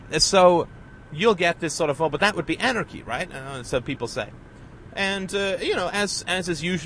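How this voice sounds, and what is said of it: Usual voice. Nothing is said of it.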